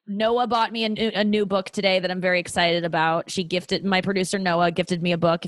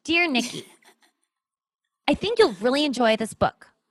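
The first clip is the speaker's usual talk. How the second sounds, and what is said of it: Imitates another person's voice. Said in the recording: “my Noah impression”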